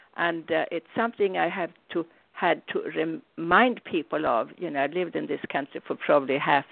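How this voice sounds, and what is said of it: Non-native accent. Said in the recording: “as you can hear, I speak with an accent”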